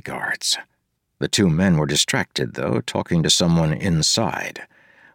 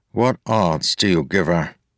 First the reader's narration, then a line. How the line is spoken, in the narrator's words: he asked, his voice muffled from inside but audible